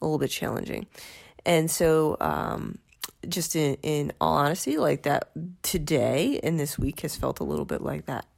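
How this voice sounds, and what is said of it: Congested, sniffly voice. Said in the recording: “You might be able to tell from my voice, I have a little bit of a sniffle thing going on.”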